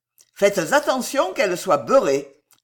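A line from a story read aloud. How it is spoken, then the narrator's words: Gentleman, harsh tone. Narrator (French): ajouta le gentleman d'un ton dur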